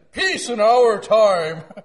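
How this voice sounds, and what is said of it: Imitates another person's voice. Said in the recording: “Not a very good impersonation of Tricky Dick”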